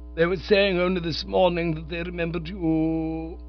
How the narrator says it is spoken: groaned the Prof, abandoning all hope

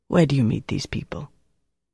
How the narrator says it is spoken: Dieter said gently

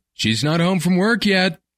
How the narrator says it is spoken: he yelled back

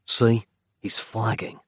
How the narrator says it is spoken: Nick whispered to Capello

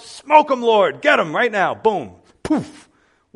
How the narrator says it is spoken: I would have shouted out

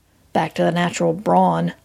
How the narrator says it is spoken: I muttered

